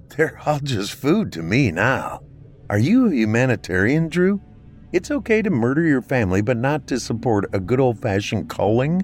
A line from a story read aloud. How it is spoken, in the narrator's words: She laughed more